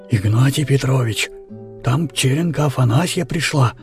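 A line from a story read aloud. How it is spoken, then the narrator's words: Mysterious whisper. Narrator (Russian): работник Тереха таинственным шепотом объявляет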